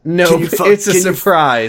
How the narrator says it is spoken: I said, laughing

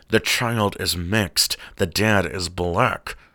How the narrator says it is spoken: My friend Brett, who was sitting next to me, whispered

